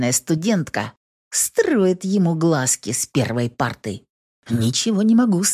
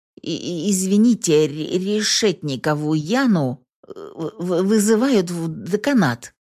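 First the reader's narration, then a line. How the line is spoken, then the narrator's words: Stuttering. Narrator (Russian): сообщает он, заикаясь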